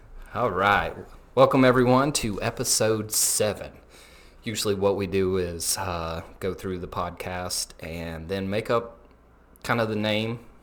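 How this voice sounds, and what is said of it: Southern twang accent. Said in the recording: “with a southern twang”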